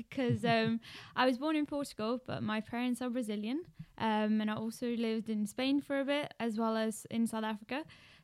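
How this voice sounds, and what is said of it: Strong South African accent. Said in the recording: “you have a South African accent and you haven't lost it one bit. It's still very much there, very strong”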